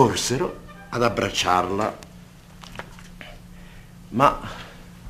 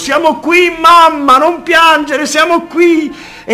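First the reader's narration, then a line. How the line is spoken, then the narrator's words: Boy shouting, overcome. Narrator (Italian): Pollicino non riuscì più a trattenersi e, gridando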